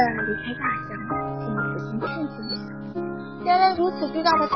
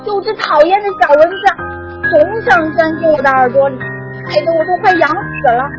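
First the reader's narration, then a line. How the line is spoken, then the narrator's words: Elephant's loud roar. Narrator (Chinese): 大象 大声吼道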